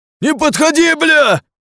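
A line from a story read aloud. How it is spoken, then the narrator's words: Shouting. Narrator (Russian): вновь закричал он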